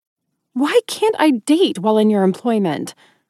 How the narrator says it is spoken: I squeaked

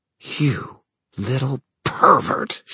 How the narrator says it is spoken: she hissed, all pretense at smirking, gone

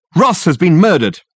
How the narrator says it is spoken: shouted

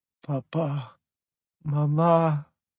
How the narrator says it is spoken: she moaned, her body now falling flaccid in my arms

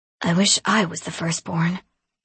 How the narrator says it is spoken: my little brother muttered in a hollow voice

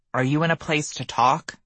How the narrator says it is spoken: he asked me, his voice a bit shaky

